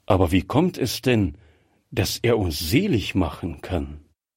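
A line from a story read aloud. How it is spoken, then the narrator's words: Plain. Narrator (German): fragte Gräfier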